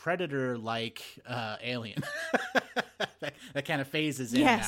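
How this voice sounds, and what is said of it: Usual voice. Nothing is said of it.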